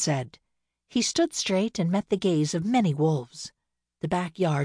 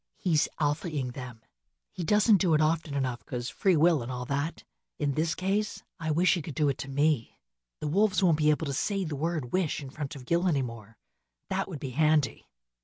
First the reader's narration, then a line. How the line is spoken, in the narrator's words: She leaned over close and whispered